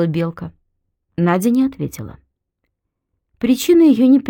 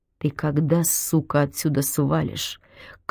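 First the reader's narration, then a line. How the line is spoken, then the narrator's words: Seething voice. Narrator (Russian): клокочущим голосом произнесла Надя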